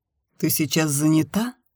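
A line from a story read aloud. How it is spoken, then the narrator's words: Plain question. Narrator (Russian): спросил Денис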